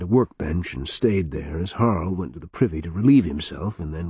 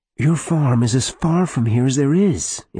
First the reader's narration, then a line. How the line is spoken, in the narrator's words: Elaine pleaded